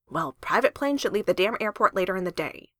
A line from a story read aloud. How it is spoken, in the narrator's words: Tony grumbled